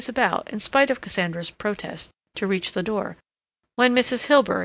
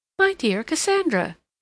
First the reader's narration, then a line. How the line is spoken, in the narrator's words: she exclaimed